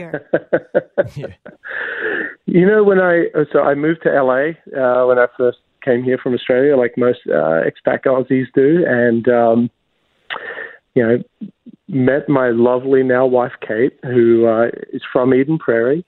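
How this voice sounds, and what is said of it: Strong Australian accent. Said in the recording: “Your Australian accent is still strong.”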